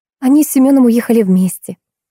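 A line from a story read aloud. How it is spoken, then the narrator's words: Warm, smiling. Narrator (Russian): ласково заулыбалась Томочка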